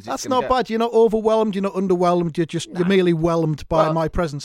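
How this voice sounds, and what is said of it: Northern English accent. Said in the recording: “plain-talking northern”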